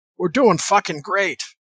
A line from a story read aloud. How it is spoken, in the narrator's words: He smiled, which was rare, and he shouted back cheerfully